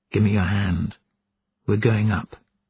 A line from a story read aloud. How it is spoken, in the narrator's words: turned to Beishai and whispered